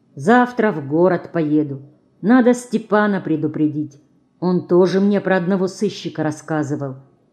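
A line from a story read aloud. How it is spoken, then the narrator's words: Quiet speech. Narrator (Russian): тихо говорит он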